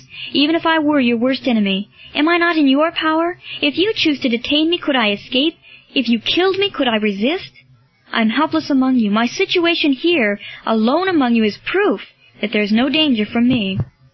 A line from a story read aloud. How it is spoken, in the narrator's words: cried Marcellus